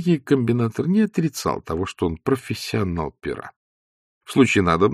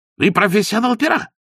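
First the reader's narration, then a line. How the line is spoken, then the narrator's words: Shouted. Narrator (Russian): закричал Лавуазьян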